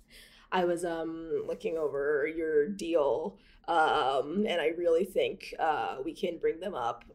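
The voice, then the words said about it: Imitated voice with vocal fry, upspeak. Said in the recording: “he had vocal fry ... He's also going to have up speech ... How do you do vocal fry? ... That's my impression of Doug”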